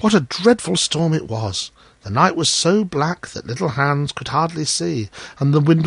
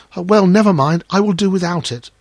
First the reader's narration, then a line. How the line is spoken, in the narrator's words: cried little Hans